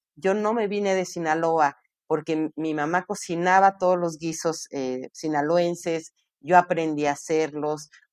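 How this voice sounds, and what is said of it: Northern Mexican Sinaloan accent. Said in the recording (Spanish): “yo ya estoy hablando como sinaloense con ese tonito, ¿no? Pues, ahorita también, ¿eh? ... se nota que es una súper norteña”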